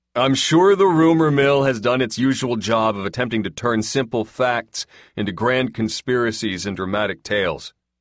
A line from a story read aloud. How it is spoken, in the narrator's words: he said loudly